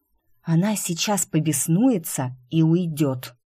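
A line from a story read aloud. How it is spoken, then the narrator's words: Hoarse whisper. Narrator (Russian): хрипло, чтобы хоть что-то сказать, прошептала я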